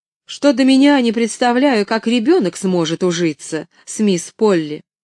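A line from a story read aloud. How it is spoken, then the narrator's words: Sharp reply. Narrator (Russian): резко ответила она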